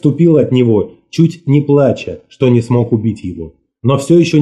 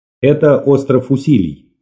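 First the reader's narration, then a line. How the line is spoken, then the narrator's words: Plain. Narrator (Russian): ответил я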